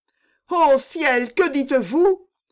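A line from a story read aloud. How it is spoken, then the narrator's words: Exclaimed. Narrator (French): s'écria-t-elle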